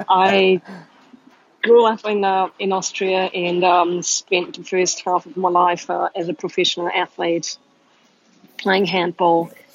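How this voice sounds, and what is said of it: Mixed, hard-to-place accent. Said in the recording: “my accent is all over the place ... a weird accent.”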